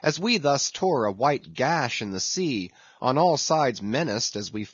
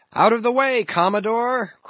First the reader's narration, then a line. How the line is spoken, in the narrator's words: cried one